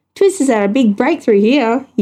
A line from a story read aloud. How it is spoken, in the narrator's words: he yelled